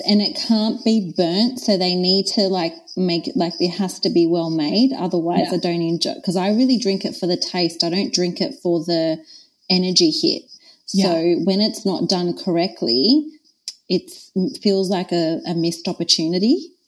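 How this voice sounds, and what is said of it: Australian accent. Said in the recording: “by your accent, I'm pretty sure the people have kind of grasped that you're in Australia”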